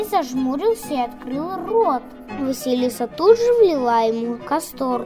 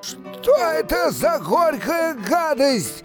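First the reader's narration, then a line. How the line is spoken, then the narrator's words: Roaring. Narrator (Russian): Взревел Кощей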